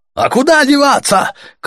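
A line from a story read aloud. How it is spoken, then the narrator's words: Shouted. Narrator (Russian): крикнули ему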